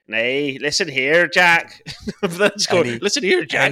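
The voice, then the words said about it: Put-on Northern Irish accent. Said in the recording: “Accents, I can do accents when I'm not asked to do an accent ... Northern Ireland”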